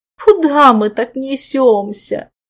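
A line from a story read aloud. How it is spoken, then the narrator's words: Displeased groan. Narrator (Russian): Недовольно простонал левая рука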